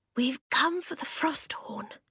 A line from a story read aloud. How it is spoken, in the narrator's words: Eska whispered to the grey man